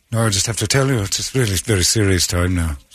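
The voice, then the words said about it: Mock serious voice. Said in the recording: “It's my serious voice.”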